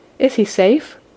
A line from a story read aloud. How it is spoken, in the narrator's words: she asked